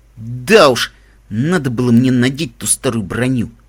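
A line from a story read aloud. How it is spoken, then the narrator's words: Through gritted teeth. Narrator (Russian): процедил Каламити сквозь зубы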